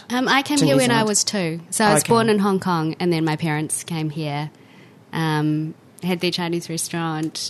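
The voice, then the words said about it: New Zealand accent. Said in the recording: “you sound like a Kiwi”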